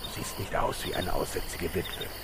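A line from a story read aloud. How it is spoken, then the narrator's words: Hissed. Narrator (German): zischte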